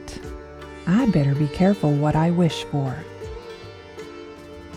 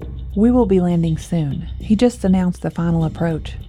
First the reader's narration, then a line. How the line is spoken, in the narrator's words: Cheyenne answered